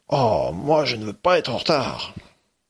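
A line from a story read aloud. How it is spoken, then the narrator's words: Grumbling. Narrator (French): Lucie grogne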